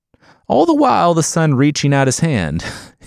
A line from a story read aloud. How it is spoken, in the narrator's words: Yangana laughed awkwardly